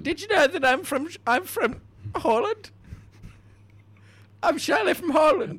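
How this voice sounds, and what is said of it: Put-on bizarre Dutch accent. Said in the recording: “that explains the very bizarre accent.”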